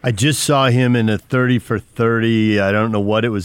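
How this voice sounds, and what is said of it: Usual voice. Nothing is said of it.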